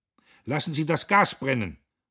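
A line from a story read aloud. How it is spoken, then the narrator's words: Calling out. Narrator (German): rief er dem Maschinemeister zu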